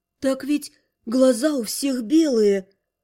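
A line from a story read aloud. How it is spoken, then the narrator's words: Hoarse rustling whisper. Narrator (Russian): Он хрипло прошелестел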